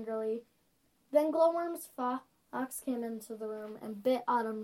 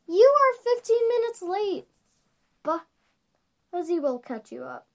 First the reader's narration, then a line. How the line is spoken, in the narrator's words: she said, the slightest bit angrily